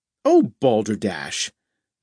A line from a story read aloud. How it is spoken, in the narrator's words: Natalie exclaimed